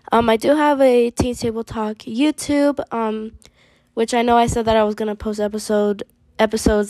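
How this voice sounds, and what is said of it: Voice sounds weird from cough. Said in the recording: “I've been having a really bad cough, so sorry if my voice sounds a little weird”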